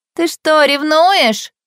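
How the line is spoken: Shout from behind. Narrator (Russian): крикнула сзади

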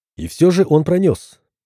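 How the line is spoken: Calm reply. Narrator (Russian): спокойно ответил Вячеслав

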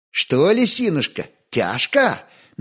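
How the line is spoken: Mocking pitying question. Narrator (Russian): Насмешливо-жалостливо спросила она

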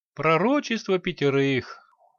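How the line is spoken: Glum mutter. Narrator (Russian): уныло уронил Санти

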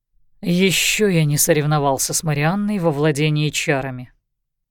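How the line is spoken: Muttered. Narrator (Russian): буркнул Лещинский

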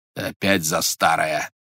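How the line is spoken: Menacing sorcerer interrupting. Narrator (Russian): грозно прервал колдун

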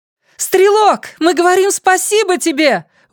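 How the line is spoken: Woman shouting. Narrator (Russian): выкрикнул женский голос

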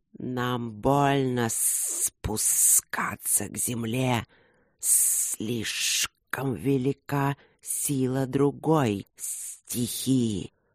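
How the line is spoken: Hissing. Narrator (Russian): шипели

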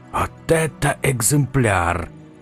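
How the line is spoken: Whisper. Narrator (Russian): прошептал де Луистен

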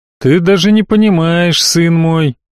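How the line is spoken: Heavy sigh. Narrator (Russian): тяжело вздохнул Раак

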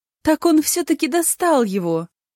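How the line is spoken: Joyful. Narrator (Russian): Радостно проговорила

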